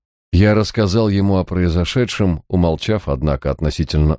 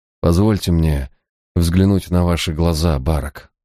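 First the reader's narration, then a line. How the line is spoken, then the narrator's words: Tired. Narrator (Russian): устало проговорил он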